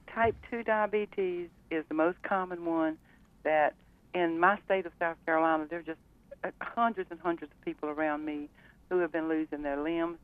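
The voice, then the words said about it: Southern US accent. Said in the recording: “I'm a Southern girl, so my talking's going to sound a little strange to you girls”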